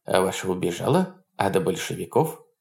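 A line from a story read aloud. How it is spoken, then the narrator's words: Quiet, good-natured question. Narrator (Russian): Добродушный, дородный, веселый, он тихо спросил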